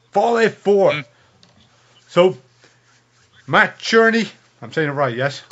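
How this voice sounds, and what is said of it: Speaks with a regional accent. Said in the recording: “I'll forgive the accent, because I don't think you can actually say it appropriately with your native tongue”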